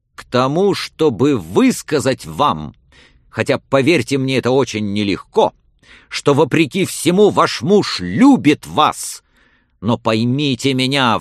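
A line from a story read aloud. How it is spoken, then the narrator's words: Sudden, almost angry shout. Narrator (Russian): вдруг крикнул Отто почти злобно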